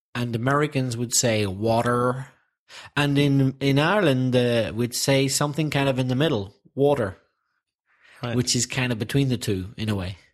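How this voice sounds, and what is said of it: Belfast Northern Irish accent. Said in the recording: “my Belfast accent”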